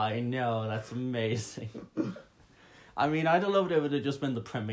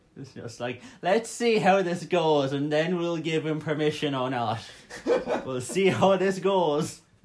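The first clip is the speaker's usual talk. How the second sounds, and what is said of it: Put-on 1970s English accent. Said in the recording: “That was a great 70s foreign accent. ... That was meant to be 70s English.”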